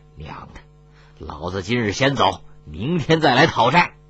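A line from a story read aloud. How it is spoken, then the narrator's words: Sighing, low voice. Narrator (Chinese): 长叹一口气，低声说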